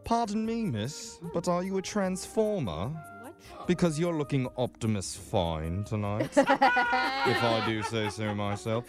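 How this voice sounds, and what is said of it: Put-on British accent. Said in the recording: “Can you tell I'm a British person? Well, I'm not really, because I just learned this accent off YouTube”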